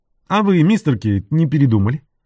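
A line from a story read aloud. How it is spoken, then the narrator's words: Laughing. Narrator (Russian): Энтони засмеялся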